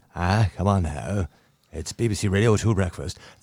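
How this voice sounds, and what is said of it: Dodgy accent imitating another person. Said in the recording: “really dodgy accent, by the way. I love that impression.”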